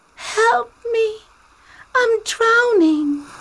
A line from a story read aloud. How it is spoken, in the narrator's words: the straw cried